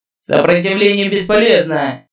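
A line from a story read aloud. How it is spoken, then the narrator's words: Booming from above. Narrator (Russian): Прогремел из звездной высоты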